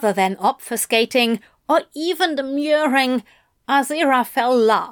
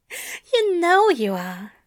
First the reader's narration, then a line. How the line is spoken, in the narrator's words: murmurs, at a tone where he knows Crowley will hear him, but he also knows Crowley can pretend not to hear